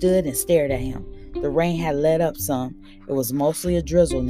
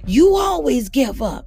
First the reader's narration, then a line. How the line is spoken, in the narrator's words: I shouted